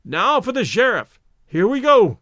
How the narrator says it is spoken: cried Stoddard

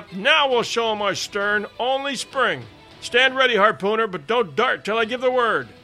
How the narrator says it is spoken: I exclaimed in triumph

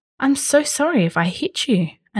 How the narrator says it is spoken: another man said

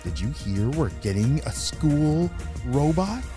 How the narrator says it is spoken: asked Ava

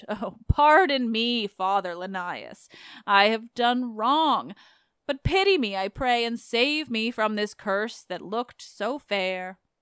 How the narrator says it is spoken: he moaned

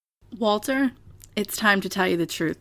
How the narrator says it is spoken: Stewart said in a solemn tone

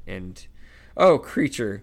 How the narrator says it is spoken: wailed Hermione, who was crying

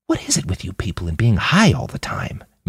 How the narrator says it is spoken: Manny whispered back

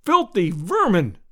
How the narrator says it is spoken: I cried

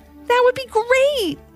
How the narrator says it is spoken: exclaimed Ivy

